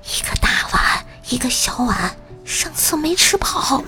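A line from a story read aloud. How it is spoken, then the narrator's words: Quiet reply under pressure. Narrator (Chinese): 顶住压力，低声回答道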